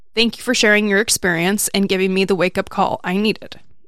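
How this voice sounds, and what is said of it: Emotional, choked-up reading voice. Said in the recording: “I don't know why I'm getting emotional,”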